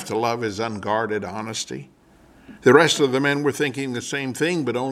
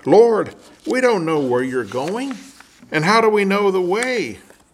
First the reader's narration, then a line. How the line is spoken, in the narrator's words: Thomas blurted out